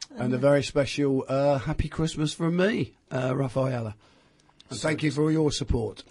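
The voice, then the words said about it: Hoarse, failing voice. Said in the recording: “I'm losing my voice again.”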